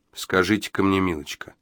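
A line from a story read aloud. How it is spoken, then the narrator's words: Asked in an even, calm tone. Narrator (Russian): удивительно ровным и спокойным тоном спросил Джо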